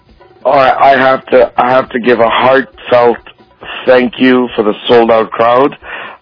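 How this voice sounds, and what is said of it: Hoarse, tired voice. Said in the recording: “As you can tell, I'm hoarse.”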